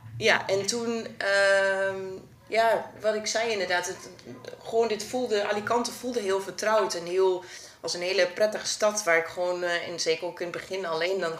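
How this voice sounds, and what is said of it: Eastern Dutch regional accent. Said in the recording (Dutch): “Nederland kom ik uit het oosten. Misschien hoor je dat niet aan mijn accent. Nederlandse luisteraars zullen het wel, denk ik, meteen horen.”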